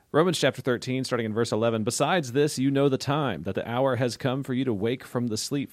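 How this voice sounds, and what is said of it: Announcer-style radio voice. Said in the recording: “wonderful radio voice? ... My radio voice.”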